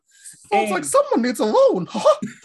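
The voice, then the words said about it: Mickey Mouse cartoon voice impression. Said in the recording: “My Mickey Mouse impression is garbage”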